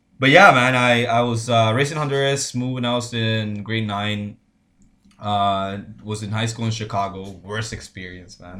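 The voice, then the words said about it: Slight Spanish accent. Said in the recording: “My first language is Spanish. I probably shows because of my accent. ... You got a little bit of that.”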